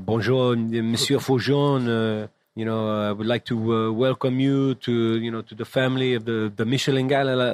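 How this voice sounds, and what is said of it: Heavy French accent. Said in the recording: “a really heavy, like, French accent.”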